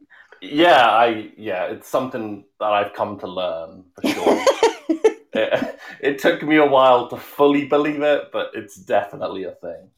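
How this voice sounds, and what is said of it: Noticeable accent. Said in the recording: “listen to you and your accent”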